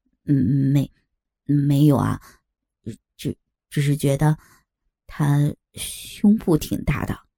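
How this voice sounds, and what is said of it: Quiet, hesitant soft voice. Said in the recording (Chinese): “小声的说”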